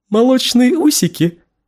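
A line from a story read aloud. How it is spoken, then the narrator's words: Giggling. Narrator (Russian): Она хихикнула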